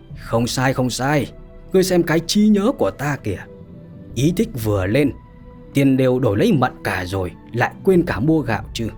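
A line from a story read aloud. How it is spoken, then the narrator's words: Stunned, then loud laughter. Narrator (Vietnamese): Lục Đại Hải sững sờ một lát, cười lớn mà nói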